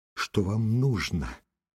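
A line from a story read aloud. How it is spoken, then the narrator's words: Fast, strange deep voice. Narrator (Russian): сказала быстрым, не своим грудным голосом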